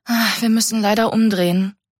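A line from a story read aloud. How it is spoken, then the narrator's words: Sigh. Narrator (German): seufzte Mika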